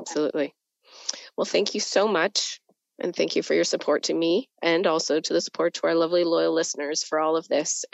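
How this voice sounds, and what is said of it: Sick, weak, fading voice. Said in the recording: “I sound terrible ... my voice is fading fast”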